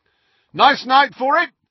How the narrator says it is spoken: Fred shouted

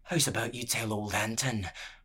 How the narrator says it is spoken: murmured the prisoner

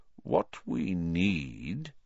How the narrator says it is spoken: said Dumbledore slowly

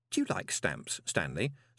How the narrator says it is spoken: said Moist kindly

